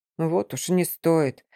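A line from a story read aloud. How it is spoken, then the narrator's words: Muttered grumble. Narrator (Russian): буркнул некромант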